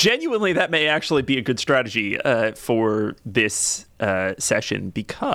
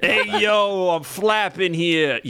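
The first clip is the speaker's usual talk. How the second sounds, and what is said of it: Put-on New Jersey accent. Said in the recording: “that Jersey accent”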